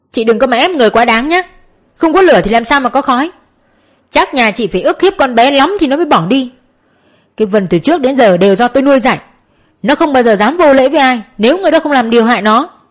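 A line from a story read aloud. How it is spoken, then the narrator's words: Loud shout. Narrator (Vietnamese): Ông ta quát lớn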